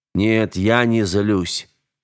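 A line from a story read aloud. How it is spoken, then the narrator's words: Tired reply. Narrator (Russian): устало ответил он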